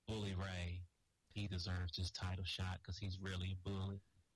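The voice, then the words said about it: Imitates another person's voice. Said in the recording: “doing a Jeff Hardy impression ... but you sounded exactly like Freight Train”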